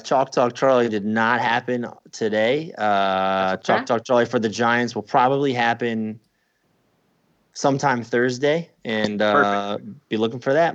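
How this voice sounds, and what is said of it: Imitates another person's voice. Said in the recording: “My impersonation of Baldy Breakdowns”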